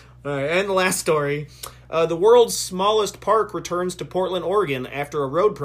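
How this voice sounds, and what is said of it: Usual voice. Nothing is said of it.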